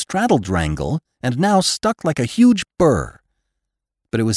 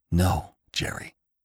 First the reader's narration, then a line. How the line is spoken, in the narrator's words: whispered Venters